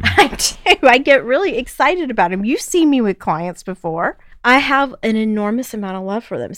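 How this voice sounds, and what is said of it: Southern American accent. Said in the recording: “does your accent allow you to do that? ... So should I copy like a Southern accent”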